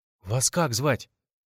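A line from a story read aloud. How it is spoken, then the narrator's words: Timid question. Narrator (Russian): робко спросил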